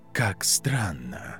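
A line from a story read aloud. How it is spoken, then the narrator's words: Very quiet, nearly inaudible. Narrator (Russian): Он опять говорил очень тихо, почти неслышно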